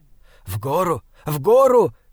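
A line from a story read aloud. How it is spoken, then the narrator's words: Hoarse shouting. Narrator (Russian): хрипло кричал Бинабек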